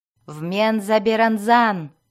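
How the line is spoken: Exasperated shout. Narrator (Russian): крикнула жрица, решив, что это существо мужского пола совершенно спятило

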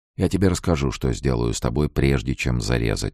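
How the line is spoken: Very calm. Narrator (Russian): сказал он очень спокойно

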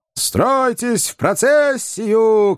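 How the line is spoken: Many voices shouting. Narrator (Russian): кричали 20 членов комитета

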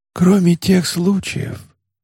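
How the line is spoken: Old sage's whisper. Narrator (Russian): прошептал старый мудрец

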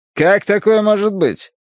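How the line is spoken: Irritated question. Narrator (Russian): раздраженно спросил капитан

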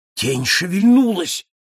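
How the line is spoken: Exclaiming. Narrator (Russian): воскликнул я

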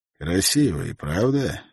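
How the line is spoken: Quiet calm question. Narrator (Russian): спросил он тихим, спокойным голосом

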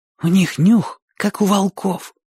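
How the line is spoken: Whispered. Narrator (Russian): сказал Оник шепотом

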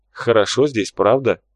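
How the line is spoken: Smirking. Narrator (Russian): хмыкнул обход

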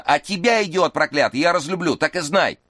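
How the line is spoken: Shout. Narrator (Russian): закричала Эшлин на жениха

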